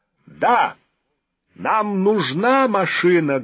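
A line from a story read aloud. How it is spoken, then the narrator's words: Loud echoing shout. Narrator (Russian): громко крикнул он, и голос эхом отразился от высоченного потолка Кремлевского дворца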